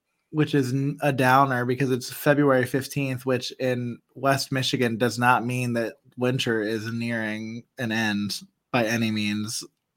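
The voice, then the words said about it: Slightly raspy, hoarse voice. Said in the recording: “you can maybe hear it in my voice still a little bit. Like I'm still a little raspy ... I keep clearing my throat every now and again ... if I still sound gross”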